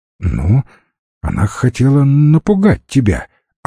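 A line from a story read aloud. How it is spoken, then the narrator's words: Timid. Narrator (Russian): робко предположил Гоша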